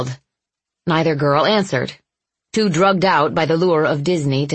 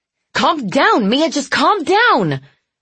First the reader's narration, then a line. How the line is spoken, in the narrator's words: I snapped